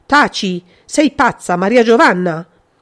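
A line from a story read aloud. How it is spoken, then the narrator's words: Violent scream. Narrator (Italian): Il grido, questa volta, aveva raggiunto il massimo della violenza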